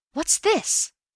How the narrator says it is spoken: I gasped

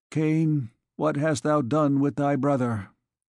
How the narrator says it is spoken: He was silent for a moment, and resumed, as though speaking to himself, and in a strong voice

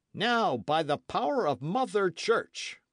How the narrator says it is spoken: cried Sir Oliver

